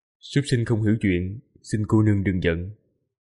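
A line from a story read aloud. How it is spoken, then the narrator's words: Soft voice. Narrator (Vietnamese): Quỷ Lệ khẽ nói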